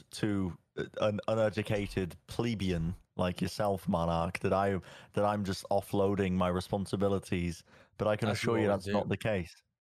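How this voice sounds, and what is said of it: Funny put-on character accent. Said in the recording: “you talk with this really funny accent”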